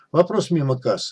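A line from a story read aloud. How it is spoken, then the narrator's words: Calm. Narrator (Russian): спокойно ответил Виктор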